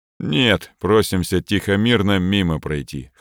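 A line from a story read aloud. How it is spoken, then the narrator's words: Officer's dry grunt. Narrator (Russian): хмыкнул подполковник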